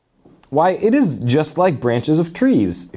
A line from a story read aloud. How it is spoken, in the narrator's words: exclaimed Lucy